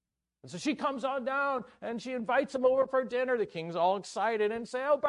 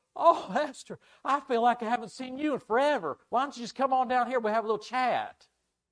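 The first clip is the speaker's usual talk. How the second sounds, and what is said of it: Put-on Southern US accent. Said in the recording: “That's my southern accent. ... Are you keeping up with the accent?”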